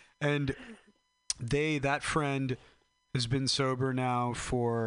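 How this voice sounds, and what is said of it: Usual voice. Nothing is said of it.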